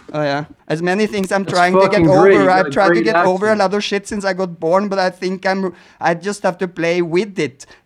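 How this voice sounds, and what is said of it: Scandinavian accent in English. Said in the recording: “my Scandinavian accent ... having our accent ... It sounds cute”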